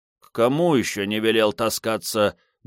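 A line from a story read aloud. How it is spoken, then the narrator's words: Grumbled. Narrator (Russian): буркнул Антонио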